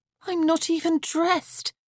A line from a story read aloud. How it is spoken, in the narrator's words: Anastasia groaned